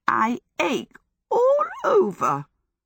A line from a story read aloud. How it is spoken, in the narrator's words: The voice that exclaimed was a weak, cracked piping